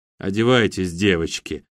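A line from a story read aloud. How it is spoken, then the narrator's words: Calm commanding voice. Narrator (Russian): спокойным голосом приказывает Татьяна Фатима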